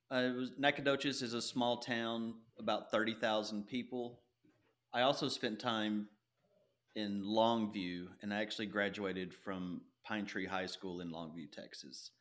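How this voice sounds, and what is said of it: East Texas accent. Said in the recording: “I was raised in East Texas, and you can probably hear that in my voice.”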